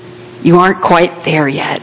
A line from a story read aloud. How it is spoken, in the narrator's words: whispering